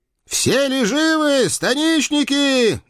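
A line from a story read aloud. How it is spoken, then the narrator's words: Loud, flushed from battle. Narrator (Russian): громко спросил Василий Дмитриевич, раскрасневшийся с бою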